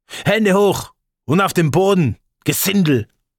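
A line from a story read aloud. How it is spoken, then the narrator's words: Loud shouting. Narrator (German): brüllten sie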